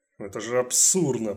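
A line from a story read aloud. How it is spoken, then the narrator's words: Muttering. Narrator (Russian): пробормотал Уэбли из Госдепа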